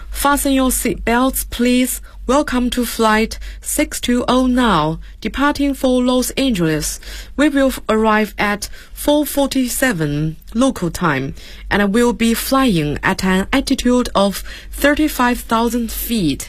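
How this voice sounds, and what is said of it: Flight attendant announcement voice. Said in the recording (Chinese): “来模仿一下空乘人员的这种句子”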